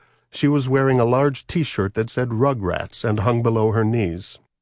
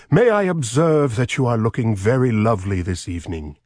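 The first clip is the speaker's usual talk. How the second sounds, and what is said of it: Lord Mountbatten impression, posh. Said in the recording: “in my best Lord Mountbatten voice.”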